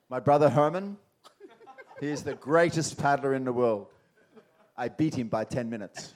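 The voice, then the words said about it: Put-on South African accent. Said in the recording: “I'll do my best South African accent here”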